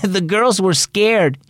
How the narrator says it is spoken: he said

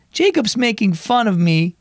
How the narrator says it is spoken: whined Eloise

